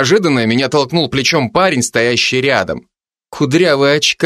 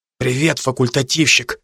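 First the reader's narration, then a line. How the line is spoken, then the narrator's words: Whispered greeting. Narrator (Russian): шепотом поздоровался он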